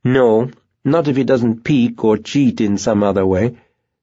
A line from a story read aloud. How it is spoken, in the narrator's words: Myra said firmly